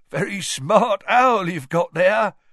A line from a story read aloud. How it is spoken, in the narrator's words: chuckled Tom